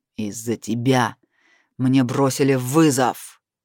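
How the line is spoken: Growling. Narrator (Russian): продолжил рычать он

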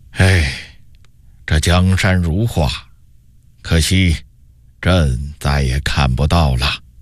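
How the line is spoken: Sudden sigh. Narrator (Chinese): 永乐帝忽然叹了口气说道

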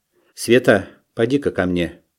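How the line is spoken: Quiet call. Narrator (Russian): негромко окликнула ее Шура

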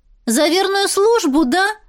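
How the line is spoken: Loud shout for all. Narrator (Russian): крикнула так, чтобы слышали все

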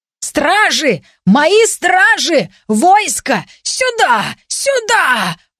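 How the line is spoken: Frantic screaming. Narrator (Russian): вопил принц

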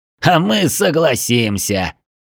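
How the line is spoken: Laughing while answering. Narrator (Russian): не переставая смеяться, ответил шеф

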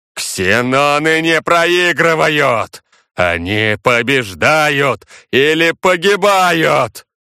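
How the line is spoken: Booming bass shout. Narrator (Russian): прокричал клокочущим басом Сива

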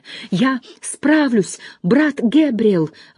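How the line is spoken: Confident exclamation. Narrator (Russian): воскликнул Дейл Гордон, чувствуя, как его переполняют сила и уверенность

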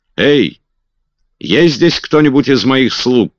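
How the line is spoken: Shouted. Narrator (Russian): крикнул он

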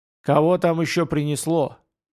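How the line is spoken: Nervous mutter, old man. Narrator (Russian): нервно пробурчал старина Джон

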